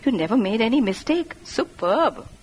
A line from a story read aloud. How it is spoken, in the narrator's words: giggling and saying